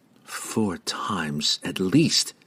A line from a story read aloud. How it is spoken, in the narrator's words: she whispered to herself